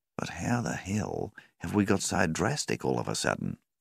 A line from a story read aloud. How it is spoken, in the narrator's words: Rawlings sighed